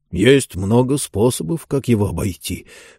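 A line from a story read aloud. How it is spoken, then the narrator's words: Low voice. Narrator (Russian): вполголоса ответил Джон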